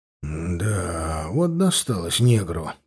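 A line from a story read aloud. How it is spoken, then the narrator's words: Mutter. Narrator (Russian): пробормотал Игнат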